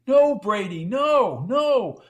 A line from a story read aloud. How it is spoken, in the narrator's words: shouted